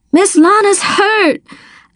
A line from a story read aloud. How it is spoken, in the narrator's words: I gasped